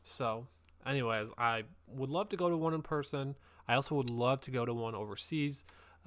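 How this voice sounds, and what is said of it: American accent. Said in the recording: “I do live in the States, by the way, in case you couldn't tell from my accent”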